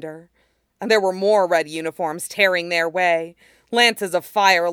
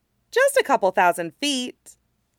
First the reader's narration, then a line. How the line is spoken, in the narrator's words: Tylee said cheerfully